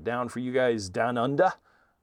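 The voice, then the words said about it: Bad put-on Australian accent. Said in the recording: “that was a horrible Australian accent.”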